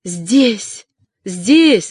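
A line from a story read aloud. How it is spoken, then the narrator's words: Joyful exclamation. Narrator (Russian): радостно воскликнула Магда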